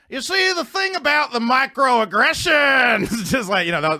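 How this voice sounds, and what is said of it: Bill Cosby impression. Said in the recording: “doing a Cosby impression ... a fake Cosby”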